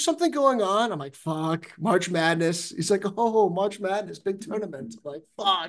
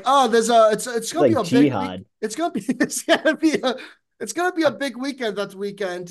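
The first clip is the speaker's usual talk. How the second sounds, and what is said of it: Poor put-on British accent. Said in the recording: “I don't know if that's a British accent. ... that's a terrible accent.”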